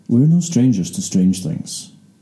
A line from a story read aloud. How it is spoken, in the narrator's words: the agent said calmly